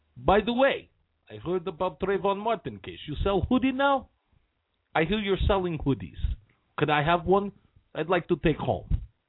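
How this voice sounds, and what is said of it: Put-on Russian accent. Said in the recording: “You gotta love that good Russian accent.”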